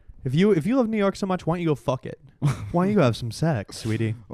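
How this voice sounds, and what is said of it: Put-on sultry New York accent. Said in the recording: “I can't stop doing that voice. What is that accent they all have, too? It's the sex accent. ... Sex voice. ... New York sex voice.”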